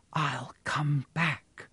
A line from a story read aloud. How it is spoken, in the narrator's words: whispered